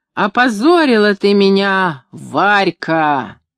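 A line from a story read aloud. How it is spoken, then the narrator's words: Sudden roar, unrecognizable voice. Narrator (Russian): вдруг взревел не своим голосом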